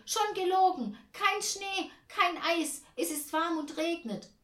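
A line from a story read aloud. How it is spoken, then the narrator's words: Calling out. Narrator (German): ruft Tante Ernie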